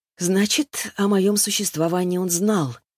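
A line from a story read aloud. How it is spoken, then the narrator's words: Sighing. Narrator (Russian): вздохнула я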